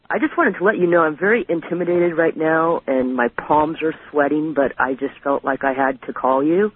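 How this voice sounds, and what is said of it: Low, quiet voice. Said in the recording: “my voice is kind of low, but I'm reclining right now”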